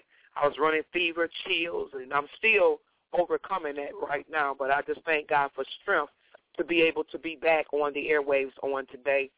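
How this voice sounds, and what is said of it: Slightly hoarse voice. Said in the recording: “I had a bad cold... My throat was so swollen. Hoarse voice was leaving me, and I'm a little hoarse a little bit, but it's not that bad.”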